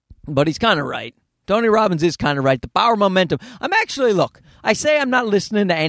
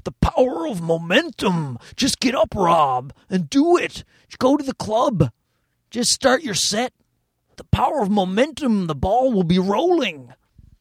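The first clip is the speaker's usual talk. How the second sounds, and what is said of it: Imitates another person's voice. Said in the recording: “we both got into Tony Robbins at the same time. So we were always doing that voice to each other”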